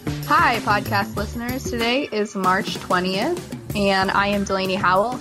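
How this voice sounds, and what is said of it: Sick, funny-sounding voice. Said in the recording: “I'm a little sick, so my voice might sound a little funny today”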